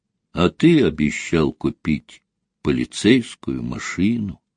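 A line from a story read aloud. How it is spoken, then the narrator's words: Quiet child's voice. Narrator (Russian): тихо проговорил мальчик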